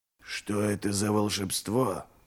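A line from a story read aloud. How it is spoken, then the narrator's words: Whisper. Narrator (Russian): прошептал Ральф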